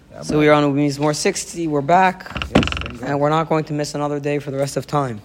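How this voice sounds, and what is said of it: Partly lost, strained voice. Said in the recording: “I lost my voice a little bit”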